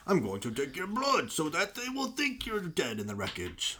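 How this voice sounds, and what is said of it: Poor impression of a movie villain. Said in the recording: “my terrible Bane impersonation”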